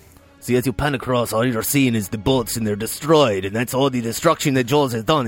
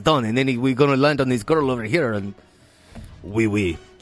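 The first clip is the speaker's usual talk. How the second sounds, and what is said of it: Put-on French-sounding accent. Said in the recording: “you say it in a French sounding accent”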